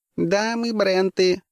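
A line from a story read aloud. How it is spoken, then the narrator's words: Thin shrill creature voice. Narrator (Russian): сказала ближайшее к нам существо тонким пронзительным голоском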